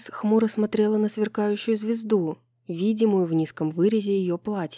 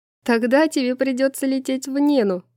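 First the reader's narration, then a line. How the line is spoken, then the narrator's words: Laughing. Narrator (Russian): засмеялась Брайс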